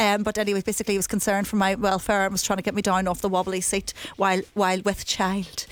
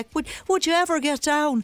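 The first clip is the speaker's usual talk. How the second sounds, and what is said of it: Bad put-on Irish accent. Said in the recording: “That's the worst Irish accent you'll ever have heard”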